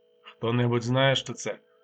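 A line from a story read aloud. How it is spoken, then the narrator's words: Calm question. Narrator (Ukrainian): спокійно запитав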